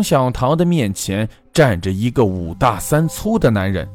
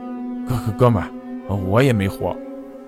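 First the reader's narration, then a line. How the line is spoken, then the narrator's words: Cheerful, grinning. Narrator (Chinese): 他笑嘻嘻地说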